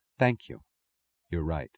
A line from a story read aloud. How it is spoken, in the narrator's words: softened by some tremulous emotion, while she answered quietly